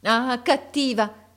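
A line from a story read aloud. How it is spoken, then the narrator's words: Exclaimed. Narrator (Italian): esclamò essa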